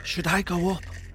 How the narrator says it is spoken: I whispered to Emily

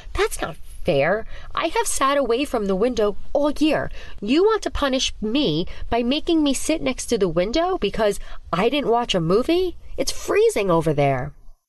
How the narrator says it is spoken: Ava said, moaning at the teacher's words

